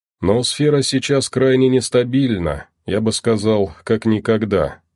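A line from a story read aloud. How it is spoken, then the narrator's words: Sighing guide. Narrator (Russian): вздохнул проводник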